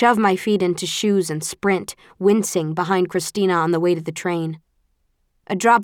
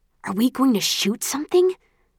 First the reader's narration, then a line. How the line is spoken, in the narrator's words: Christina hisses in my ear